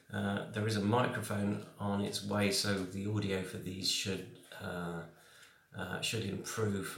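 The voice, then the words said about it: Croaky voice from a cold. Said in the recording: “I've still got a bit of a cold. ... My voice is going a bit cro- croaky.”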